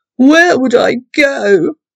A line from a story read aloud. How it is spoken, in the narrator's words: Hugo wailed in response